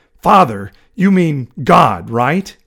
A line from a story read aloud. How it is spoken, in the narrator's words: Hal growled